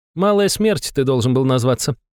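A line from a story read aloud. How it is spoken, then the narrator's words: Baroness chuckling. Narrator (Russian): хохотнула баронесса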